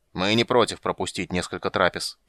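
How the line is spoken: Grumbled, stressing pronoun. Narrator (Russian): проворчал Регар, голосом выделив местоимение

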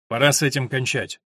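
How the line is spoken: Decisive announcement. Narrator (Russian): Джек решительным тоном объявил

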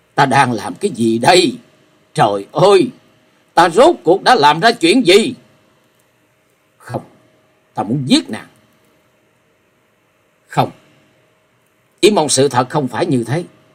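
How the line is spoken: Frantic loud scream. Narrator (Vietnamese): Hắn cuồng loạn hét lớn

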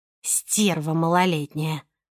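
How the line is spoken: Grumbling. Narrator (Russian): проворчала Симашка

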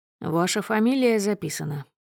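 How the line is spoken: Dry officer's reply. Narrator (Russian): сухо отвечает офицер

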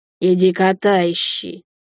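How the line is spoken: Gruff mutter. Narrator (Russian): буркнул Макс

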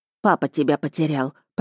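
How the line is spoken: Grumbling mother. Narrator (Russian): проворчала мама

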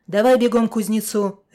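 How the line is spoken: Barked. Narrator (Russian): рявкнул он

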